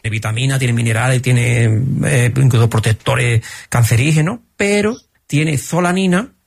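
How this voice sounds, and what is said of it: Andalusian Spanish accent. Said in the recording (Spanish): “que se supone que es andaluz, lo vais a notar en el acento”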